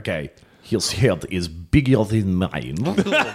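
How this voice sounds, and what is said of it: Put-on Russian accent. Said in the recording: “let's go around Russian accent”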